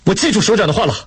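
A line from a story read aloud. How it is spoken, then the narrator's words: Loud. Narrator (Chinese): 雷锋大声说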